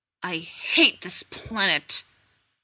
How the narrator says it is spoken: Taylor hissed

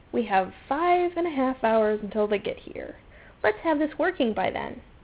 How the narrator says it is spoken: Elizabeth said dryly

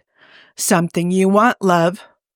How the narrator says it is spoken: Hob asked hoarsely

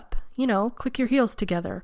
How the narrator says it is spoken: Carson said earnestly

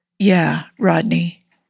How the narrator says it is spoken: he says hoarsely, unevenly

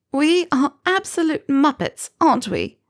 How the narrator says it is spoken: Pansy let out a watery laugh

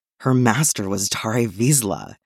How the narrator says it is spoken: he says, like a plea

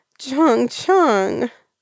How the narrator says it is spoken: Wei Bishan wails

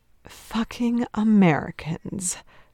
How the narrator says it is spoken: Trent sighs

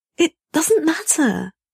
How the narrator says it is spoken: he pleads desperately

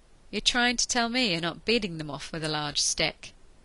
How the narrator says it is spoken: Ianto managed a breathless laugh

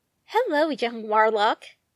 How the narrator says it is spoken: the dragon said

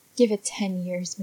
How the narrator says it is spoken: McKay mutters

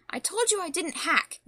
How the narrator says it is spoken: the Creeper snapped at him

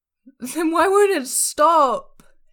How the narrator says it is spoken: Esther wails

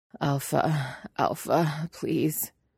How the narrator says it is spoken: Eddie pleads, his voice is breathless and breaking

